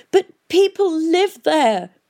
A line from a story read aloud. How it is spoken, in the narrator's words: wailed Catherine